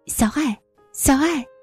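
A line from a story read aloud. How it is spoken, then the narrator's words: Repeated calling over the phone. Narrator (Chinese): 电话那头一遍一遍的喊着我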